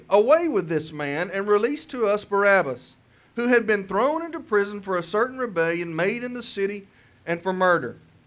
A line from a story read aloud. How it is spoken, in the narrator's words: they called and cried out at once, saying